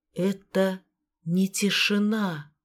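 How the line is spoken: Whisper. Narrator (Russian): прошептала она

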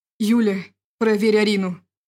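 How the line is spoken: Pleading. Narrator (Russian): взмолился мужчина

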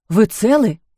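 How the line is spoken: Frightened question. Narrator (Russian): испуганно спросил таксист

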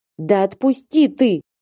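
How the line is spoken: Straining shout. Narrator (Russian): крикнула я, пытаясь разжать его стальные объятия

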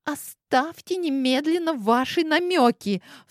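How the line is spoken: Sharp cry. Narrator (Russian): вскрикнула Амина

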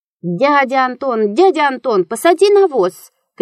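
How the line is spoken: Shouting. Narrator (Russian): кричала она

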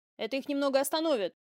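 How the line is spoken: Loud. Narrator (Russian): громко сказал Орионец

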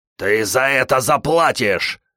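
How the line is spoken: Growl. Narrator (Russian): рычал кто-то

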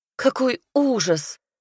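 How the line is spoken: Muffled sobbing. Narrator (Russian): зажав кулаком рот, рыдала она

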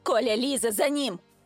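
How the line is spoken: Hoarse croak. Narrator (Russian): хрипнула я

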